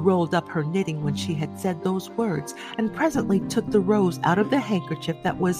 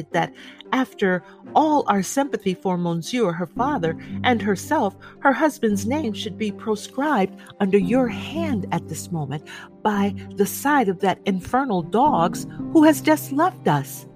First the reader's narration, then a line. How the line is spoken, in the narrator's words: said Defarge, rather pleading with his wife to induce her to admit it